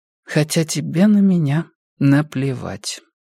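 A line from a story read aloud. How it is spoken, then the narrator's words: Muffled, hollow voice. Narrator (Russian): глухо произнесла она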